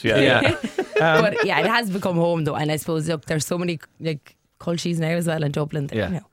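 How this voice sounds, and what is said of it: Irish Cork accent. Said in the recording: “Do you still feel like a Cork girl in Dublin ... I think my accent as well gives it away.”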